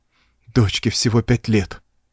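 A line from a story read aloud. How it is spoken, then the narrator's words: Breathed out. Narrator (Russian): выдохнул Уэнтард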